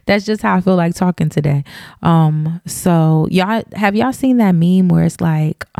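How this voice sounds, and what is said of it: Slight Southern twang. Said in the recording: “I have a little southern twang on my voice today”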